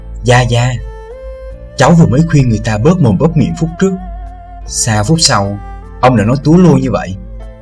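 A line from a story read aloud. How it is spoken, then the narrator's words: Soft reproachful voice. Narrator (Vietnamese): Thiếu nữ khẽ giọng nói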